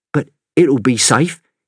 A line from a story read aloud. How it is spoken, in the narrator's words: he stammered, realising his mistake